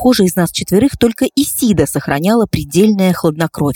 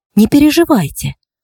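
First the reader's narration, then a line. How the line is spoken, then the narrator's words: Calm even voice. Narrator (Russian): сказала она спокойным ровным голосом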